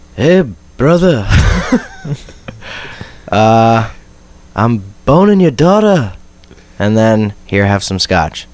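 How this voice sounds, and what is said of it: Imitated character voice, trailing off. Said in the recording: “my Widmore impression. It just kind of trails off at the very end.”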